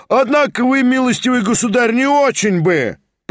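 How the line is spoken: Shout from the back. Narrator (Russian): прокричал кто-то из задних рядов

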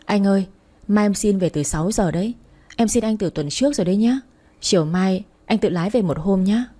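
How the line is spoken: Muttering. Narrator (Vietnamese): anh trợ lý đang ngồi và lẩm bẩm

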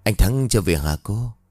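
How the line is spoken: Sighing question. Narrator (Vietnamese): Hạnh thở dài ngồi xuống cái ghế sofa, chưa ngồi xuống để nói với bà Hiền

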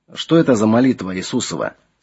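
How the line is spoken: Plain. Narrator (Russian): спросил Флавиана Эдуард

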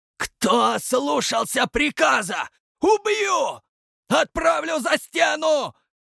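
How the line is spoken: Hysterical screaming. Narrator (Russian): Как истеричка вопил Верка

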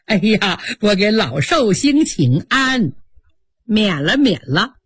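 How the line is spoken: Smiling, ingratiating greeting. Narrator (Chinese): 满脸堆笑，嘴里还说

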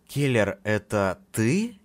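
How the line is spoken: Uncertain question. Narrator (Russian): неуверенно спросил я голосом

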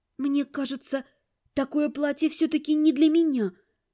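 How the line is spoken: Timid. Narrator (Russian): робко сказала я

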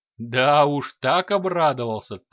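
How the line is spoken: Chuckling. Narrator (Russian): хохотнул Дварх

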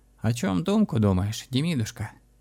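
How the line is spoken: Quiet question, old man. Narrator (Russian): тихо спросил дед

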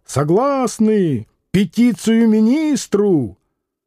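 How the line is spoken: Student shouting. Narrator (Russian): признался студент и снова закричал

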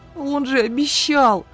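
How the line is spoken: Sobbing, wailing drawl. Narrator (Russian): Всхлипывая и подвывая, протянула

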